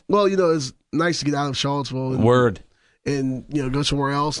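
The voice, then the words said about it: Hoarse, husky, nearly lost voice. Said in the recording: “My voice is struggling. ... you sound terrible. You sound like a sex phone hotline woman. ... you don't sound great ... I lost my voice over the weekend.”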